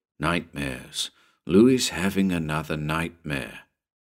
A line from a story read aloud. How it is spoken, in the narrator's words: opened one eye and muttered